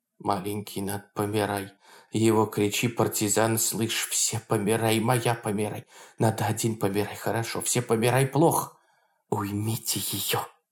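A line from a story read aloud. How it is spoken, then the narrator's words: Loud whisper. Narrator (Russian): китаец успел сказать со двора громким шепотом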